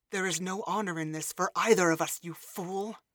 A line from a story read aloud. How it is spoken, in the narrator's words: she hissed, leaning into his ear